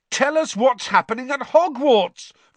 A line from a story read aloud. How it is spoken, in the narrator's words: Fred bellowed out of the window